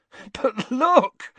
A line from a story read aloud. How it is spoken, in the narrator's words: said Ron, laughing